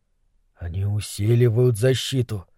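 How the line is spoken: Whispered. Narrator (Russian): шепотом произнес Немрод

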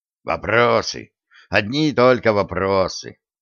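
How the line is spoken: Grumbling. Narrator (Russian): проворчал Джо

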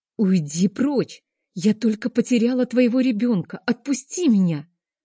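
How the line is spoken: Distressed exclamation. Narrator (Russian): воскликнула я

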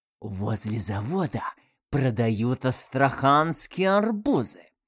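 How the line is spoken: Hissed into ear. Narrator (Russian): прошипела на ухо

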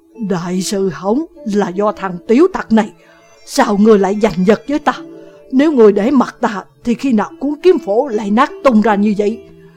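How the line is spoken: Dejected sigh. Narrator (Vietnamese): Vạn Khuê buông tiếng thở dài, trong lòng chán nản

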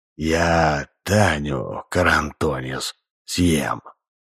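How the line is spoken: Whisper. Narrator (Russian): Сидоров наклонился к самому уху Грубина и прошептал

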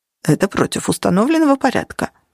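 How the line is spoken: Mumbling. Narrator (Russian): пробормотал Чет

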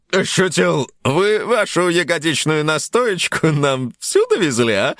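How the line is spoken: Cheerful inquiry. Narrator (Russian): весело осведомился ведущий

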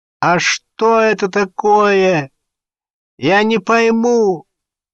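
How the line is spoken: Nasal yell. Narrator (Russian): гнусаво заорал

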